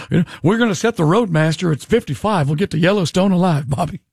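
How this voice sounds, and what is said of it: Hank Hill impression. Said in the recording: “giving him the Hank Hill voice.”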